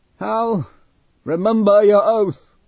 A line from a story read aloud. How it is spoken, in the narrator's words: He had called out to Hal in a clear, high voice